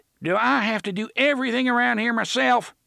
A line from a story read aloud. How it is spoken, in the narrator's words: TikTok shouted, more exasperated than angry, it seemed